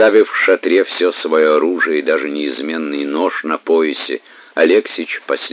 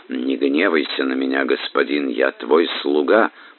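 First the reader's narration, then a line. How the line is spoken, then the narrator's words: Whispered. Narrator (Russian): прошептал толмач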